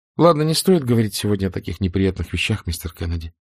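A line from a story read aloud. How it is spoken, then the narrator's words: Plain. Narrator (Russian): сказала Скарлетт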